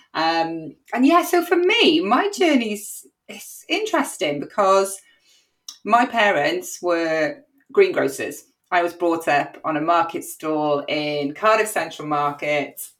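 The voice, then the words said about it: Welsh Cardiff accent. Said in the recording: “the Welsh leek in me, I don't know if you can tell by my accent that I'm a very proud Cardiff born and bred girl”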